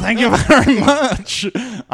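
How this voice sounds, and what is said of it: French accent impression of Alexandre Desplat. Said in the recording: “Alexandre Desplat ... You can't do a French accent? ... That's pretty good.”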